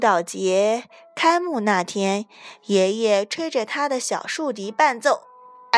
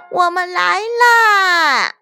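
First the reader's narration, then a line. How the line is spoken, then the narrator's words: Proud, loud shout. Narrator (Chinese): 安吉丽娜骄傲地……高声喊道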